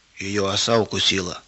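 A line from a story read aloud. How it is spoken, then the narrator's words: Whispered. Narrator (Russian): прошептал Тимур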